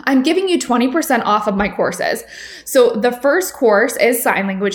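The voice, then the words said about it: Slightly congested, sick-sounding voice. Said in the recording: “I have a little bit of a cold.”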